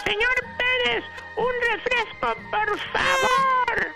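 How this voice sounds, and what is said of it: Shouting loudly. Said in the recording (Spanish): “le grito ... ¿Y por qué gritó?”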